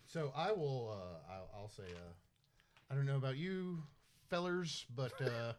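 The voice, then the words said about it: Folksy old-timer put-on accent. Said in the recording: “Sweet new accent ... an old folksy demon”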